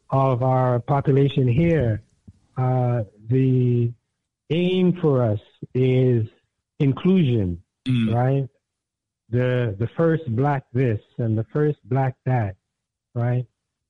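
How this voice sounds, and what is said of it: Hoarse, fading voice. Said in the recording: “losing your voice”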